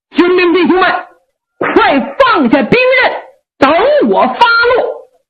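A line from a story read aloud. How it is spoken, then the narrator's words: Shouted. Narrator (Chinese): 六郎喊话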